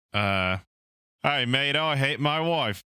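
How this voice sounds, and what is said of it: Put-on British-Australian accent. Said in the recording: “In your best British accent ... So he's Australian living in England.”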